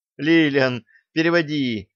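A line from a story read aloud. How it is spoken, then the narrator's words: Pleading. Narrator (Russian): взмолилась Алиса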